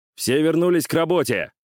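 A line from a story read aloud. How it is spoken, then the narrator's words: Barked order. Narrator (Russian): рявкнул воспитатель провожатый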